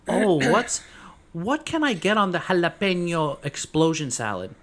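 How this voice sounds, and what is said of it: Exaggerated put-on Spanish accent. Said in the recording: “They add a Spanish accent, but they have no accent naturally.”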